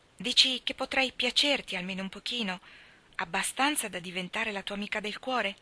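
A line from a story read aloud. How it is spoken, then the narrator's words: Laughing before speaking. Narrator (Italian): Diana rise, come faceva quasi ogni volta prima di parlare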